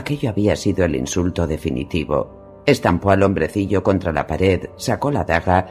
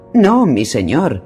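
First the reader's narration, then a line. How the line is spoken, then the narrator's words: Urgent exclamation. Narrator (Spanish): exclamó una voz apremiante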